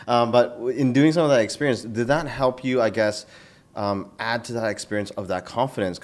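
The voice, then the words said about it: Strained voice giving out. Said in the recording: “oh my God, even my voice is going”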